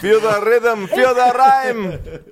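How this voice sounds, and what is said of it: Exaggerated put-on foreign accent. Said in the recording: “That accent was upsetting... A little bit more Russian... Genderless”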